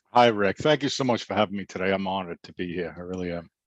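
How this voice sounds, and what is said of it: Boston accent. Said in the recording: “I love that Boston accent ... I couldn't get rid of it if I tried.”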